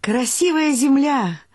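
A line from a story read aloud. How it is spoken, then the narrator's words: Shouting into ear. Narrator (Russian): крикнула я дремлющему Шуре в ухо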